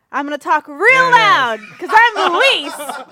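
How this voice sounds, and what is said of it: Loud imitation of another person's voice. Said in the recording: “I'm going to talk like Luis. This is how Luis sounds. ... You got to talk real loud.”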